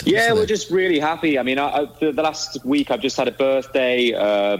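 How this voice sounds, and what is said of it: Distinctive British accent. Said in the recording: “I wish I spoke like that. ... he sounds like John Lennon. ... I want to work on that accent”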